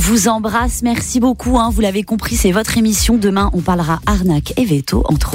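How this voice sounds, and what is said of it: Usual voice. Nothing is said of it.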